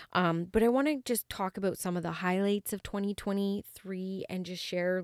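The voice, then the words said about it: Low-energy, subdued voice. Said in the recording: “you might be able to feel it, my energy, and like hear it in my voice ... I'm not my most vibrant self”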